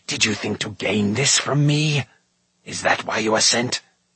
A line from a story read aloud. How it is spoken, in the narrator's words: he hissed